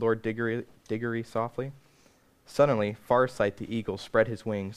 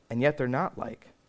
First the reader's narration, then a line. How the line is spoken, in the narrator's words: said Lucy